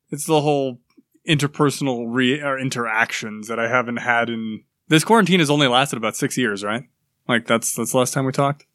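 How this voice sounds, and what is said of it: Mysterious radio voice. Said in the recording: “Mysterious radio voice.”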